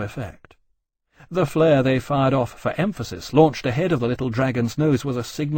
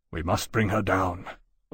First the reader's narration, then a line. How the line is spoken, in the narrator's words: Lawrence said grimly